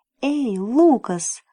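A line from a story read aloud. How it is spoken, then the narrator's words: Exclamation. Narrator (Russian): воскликнул он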